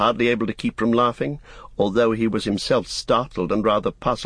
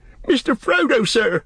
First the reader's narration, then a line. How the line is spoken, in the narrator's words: cried Sam, quaking